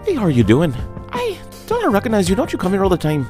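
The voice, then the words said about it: Put-on Irish accent. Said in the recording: “I just like talking with an Irish accent.”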